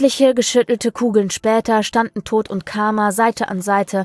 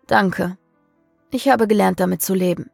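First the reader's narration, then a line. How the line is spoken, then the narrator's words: Exhausted sigh. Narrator (German): seufzte Samael erschöpft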